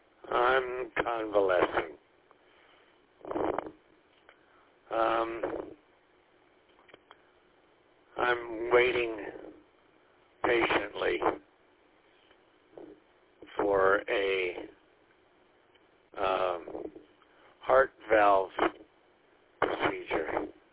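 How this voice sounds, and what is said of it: Unwell, poor-sounding voice. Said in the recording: “you sound terrible”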